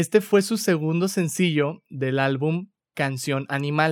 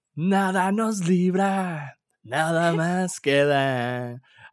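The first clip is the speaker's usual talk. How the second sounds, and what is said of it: Sung imitation of another person's voice. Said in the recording (Spanish): “Ahí estoy haciendo mi imitación de Gustavo Cerati”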